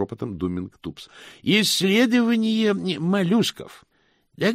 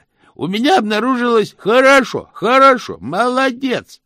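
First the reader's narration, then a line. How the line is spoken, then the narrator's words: Shouting through cupped hands. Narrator (Russian): кричал Чудакули, сложив ладони у рта для громкости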